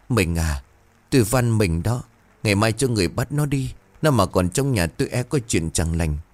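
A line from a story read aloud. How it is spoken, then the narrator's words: Trembling plea. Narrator (Vietnamese): Bà Hào run rẩy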